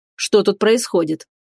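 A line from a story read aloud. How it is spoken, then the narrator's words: Menacing. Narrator (Russian): грозно сказал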